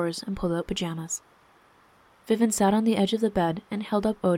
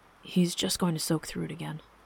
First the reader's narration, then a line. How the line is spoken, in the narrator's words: Seb murmured